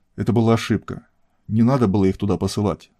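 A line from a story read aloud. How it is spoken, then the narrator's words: Quiet speech. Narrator (Russian): начал тихо говорить Антон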